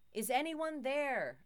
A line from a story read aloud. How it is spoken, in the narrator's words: called out into the darkness